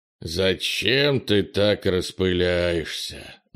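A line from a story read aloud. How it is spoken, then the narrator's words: Displeased grumbling. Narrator (Russian): недовольно проворчал Крис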